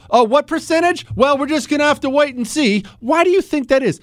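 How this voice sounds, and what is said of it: Loud, hyped-up shouting. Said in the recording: “I feel like I'm shouting... I end up getting too hyped up for the next day, and I feel like it's coming through in the microphone, and I'm yelling at everybody... It is coming through a little bit.”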